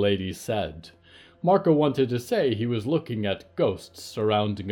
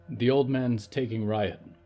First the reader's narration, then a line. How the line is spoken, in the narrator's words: Marco said